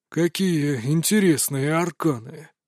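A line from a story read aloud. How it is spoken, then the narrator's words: Muttered. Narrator (Russian): пробормотал он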